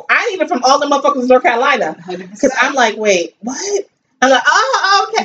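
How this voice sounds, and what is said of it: New York accent, no twang. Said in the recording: “I have a New York accent ... It's closer to the standard English ... I do not have a twang”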